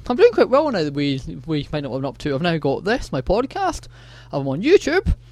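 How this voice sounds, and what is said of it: Scottish accent. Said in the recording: “my funny Scots accent”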